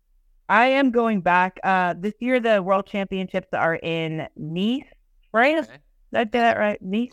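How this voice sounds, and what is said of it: Southern accent. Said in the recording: “We have similar accents, you know, a nice southern accent. ... The accent does come out from time to time.”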